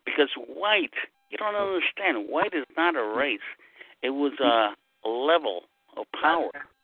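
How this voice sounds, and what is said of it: Brooklyn New York accent. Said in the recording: “where's your accent from? ... I'm from New York. I'm Brooklyn.”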